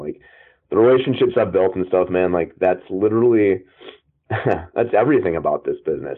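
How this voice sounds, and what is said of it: Choked-up, emotional voice. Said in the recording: “I'm like honestly getting a little choked up about this ... I actually am like choked up right now”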